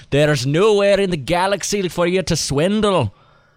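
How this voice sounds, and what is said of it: Put-on Scottish accent. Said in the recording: “in my best Scottish accent”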